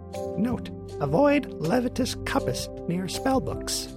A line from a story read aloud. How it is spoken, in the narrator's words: Fizzwick sighed, adding